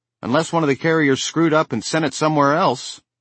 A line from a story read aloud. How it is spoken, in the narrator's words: said brightly